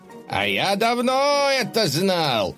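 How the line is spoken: Yell from crowd. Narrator (Russian): заорал кто-то в толпе

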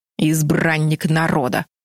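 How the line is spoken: Grumbling lion. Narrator (Russian): проворчал лев

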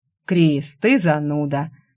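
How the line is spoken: Sighed. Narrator (Russian): вздохнул Светлый

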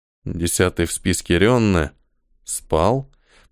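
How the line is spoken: Muttered. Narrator (Russian): пробормотал Ниэль

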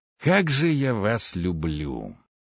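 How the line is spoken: Growled through teeth. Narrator (Russian): сквозь зубы прорычал я

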